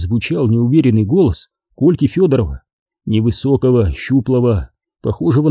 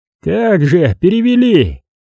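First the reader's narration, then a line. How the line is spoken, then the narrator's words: Snorting. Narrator (Russian): хмыкнул его сослуживец по Афганистану, Трукшин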